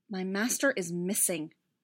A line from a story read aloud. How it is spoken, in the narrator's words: Barriss said, her voice going harsh for a moment